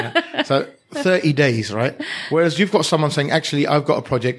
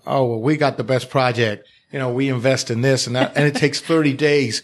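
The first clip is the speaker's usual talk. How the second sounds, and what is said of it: Put-on Texas accent. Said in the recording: “Is that your ... Texas accent? ... That's my Texas accent.”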